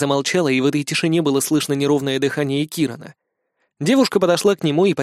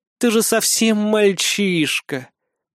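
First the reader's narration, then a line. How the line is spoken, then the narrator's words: Drawl. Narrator (Russian): протянула она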